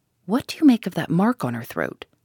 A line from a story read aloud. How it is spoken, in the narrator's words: I asked the professor in a whisper